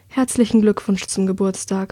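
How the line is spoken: Murmured. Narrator (German): murmelt sie

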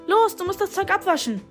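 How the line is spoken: Calling out. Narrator (German): rief er

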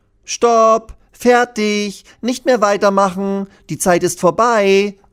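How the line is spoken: Called out. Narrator (German): ruft Lilly

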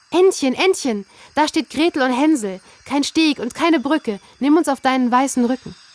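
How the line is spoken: Calling out. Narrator (German): rief sie

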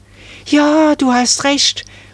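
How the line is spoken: Excited call. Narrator (German): rief da Marie aufgeregt

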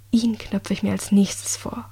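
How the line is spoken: Low murmur. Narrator (German): raunte sie

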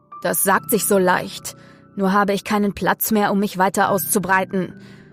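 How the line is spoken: Man growling back. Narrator (German): knurrte der Mann zurück

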